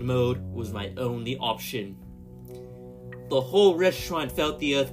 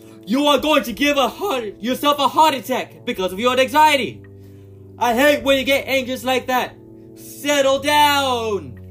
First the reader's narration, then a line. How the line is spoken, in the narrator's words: She then yelled in a louder voice